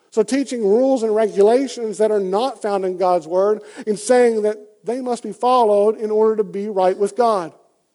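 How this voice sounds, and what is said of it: Southern US accent. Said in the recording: “as you can tell by my accent, in the pretty deep South”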